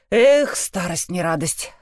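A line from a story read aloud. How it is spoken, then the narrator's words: Sighing. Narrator (Russian): вздохнул он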